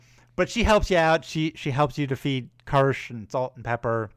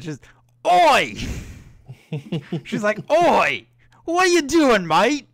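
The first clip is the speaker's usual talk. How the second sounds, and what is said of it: Thick put-on Australian accent. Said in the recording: “a very thick Australian accent”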